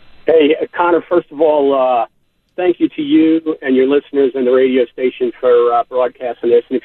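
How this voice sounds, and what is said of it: New York accent. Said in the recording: “if you can't tell by my accent, I'm a transplant from New York”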